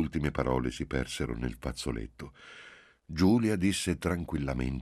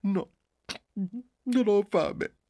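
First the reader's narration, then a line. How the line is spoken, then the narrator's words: Mother sobbing. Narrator (Italian): disse la madre singhiozzando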